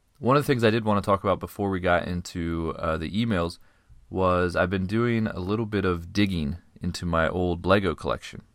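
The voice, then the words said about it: Scratchy, sick-sounding voice. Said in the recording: “I am a little under the weather, so my voice is kind of a little scratchy... If you're not used to me sounding like this, I am a little sick”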